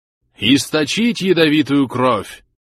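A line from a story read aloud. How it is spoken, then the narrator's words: Solemn booming old voice. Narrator (Russian): торжественно прогремел голос старца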